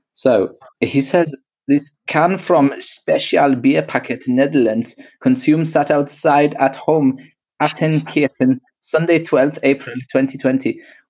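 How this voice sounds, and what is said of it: Put-on German accent. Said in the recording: “a German dude. So I'm probably going to do a bit of an accent ... apologies to any German listeners”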